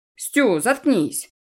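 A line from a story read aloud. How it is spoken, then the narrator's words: Snapped. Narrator (Russian): огрызнулся Макс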